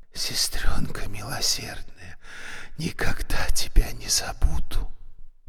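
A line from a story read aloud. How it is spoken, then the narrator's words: Male whisper. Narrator (Russian): Кохановский прошептал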